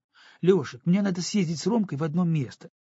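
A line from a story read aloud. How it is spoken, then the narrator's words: Hurried. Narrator (Russian): торопливо проговорила она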